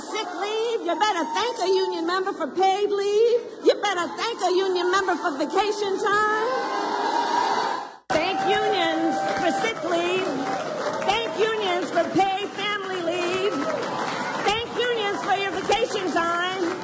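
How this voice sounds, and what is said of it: Phony put-on accent. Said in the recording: “she comes up with this phony accent. This is bad.”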